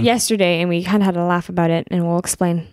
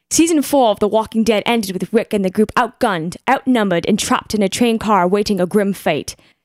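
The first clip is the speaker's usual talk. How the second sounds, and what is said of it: Put-on British accent. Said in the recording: “read that in a British accent”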